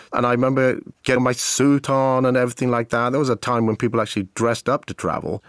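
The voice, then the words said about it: Distinctive foreign accent. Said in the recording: “I have a very distinctive accent. And living in Southern California, it was very noticeable.”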